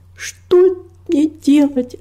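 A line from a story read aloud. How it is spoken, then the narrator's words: Sobbing. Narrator (Russian): разрыдалась она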